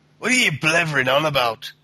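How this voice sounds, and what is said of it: Scottish accent, Fable 2 gargoyle impression. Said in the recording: “a Scottish accent? ... impersonation of one of the gargoyles from Fable 2”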